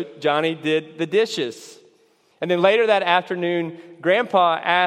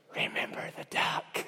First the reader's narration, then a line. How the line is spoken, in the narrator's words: she whispered